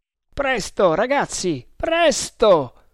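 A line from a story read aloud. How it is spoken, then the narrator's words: Desperate exclamation. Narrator (Italian): esclamò con accento disperato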